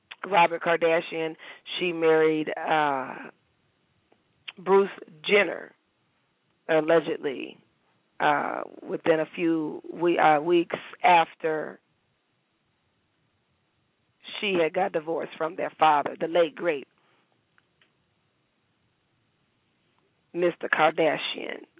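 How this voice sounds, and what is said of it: Hoarse, strained voice. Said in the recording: “my voice is so hoarse ... my voice is gone”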